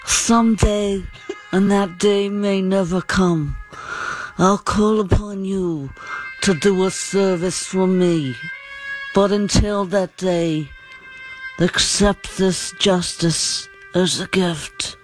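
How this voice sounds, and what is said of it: Don Corleone character impression. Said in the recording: “one of the best impersonations that you've ever heard... This is Don Corleone.”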